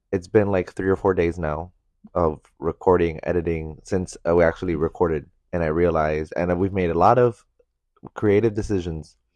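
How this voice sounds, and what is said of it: Stuffy, congested voice from illness. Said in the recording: “my voice has changed... it's changed because you're like... Because I'm sick... You're like stuffy... that's why my voice is different”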